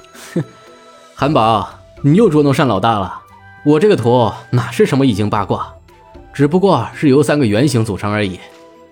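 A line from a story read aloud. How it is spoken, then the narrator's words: Laughing. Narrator (Chinese): 令狐无忧笑道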